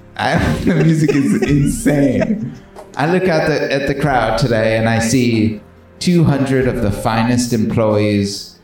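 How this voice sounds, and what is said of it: Formal British royal-style speech accent. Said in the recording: “Are you doing an accent? ... you sound like the King's Speech. ... Yeah, it's good.”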